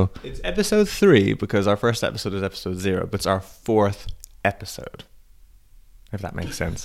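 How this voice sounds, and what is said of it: Croaky voice from a cold. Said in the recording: “I have a cold, so I have to apologize if my voice is a bit croaky”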